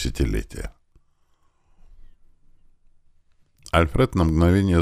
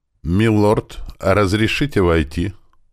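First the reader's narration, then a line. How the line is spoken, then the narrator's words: Calm, not servile. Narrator (Russian): Голос звучал спокойно и без излишней подобострастности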